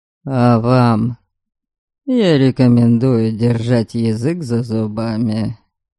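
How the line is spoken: Hissed with open contempt. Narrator (Russian): с нескрываемым презрением процедил Норберг

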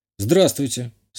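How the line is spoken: Calm. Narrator (Russian): спокойно сказал я

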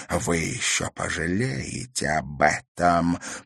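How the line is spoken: Hissing. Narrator (Russian): прошипела она

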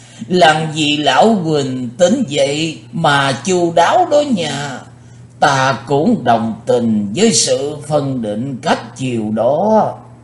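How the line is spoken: Loud hearty laughter. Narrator (Vietnamese): Lão quái ngư cười to như vừa tỉnh rượu

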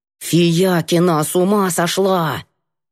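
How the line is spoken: Hissed. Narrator (Russian): Я зашипела

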